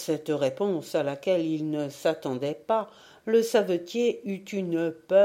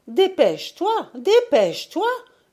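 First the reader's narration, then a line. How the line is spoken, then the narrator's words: Urgent shout. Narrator (French): lui cria-t-elle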